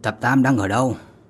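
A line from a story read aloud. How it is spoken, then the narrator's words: Cold question. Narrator (Vietnamese): Vương Lâm giọng nói lạnh lùng hỏi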